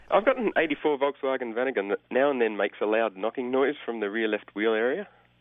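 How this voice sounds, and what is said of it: Australian accent. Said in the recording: “I should have known by your accent.”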